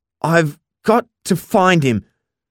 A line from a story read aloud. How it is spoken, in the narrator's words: I stuttered back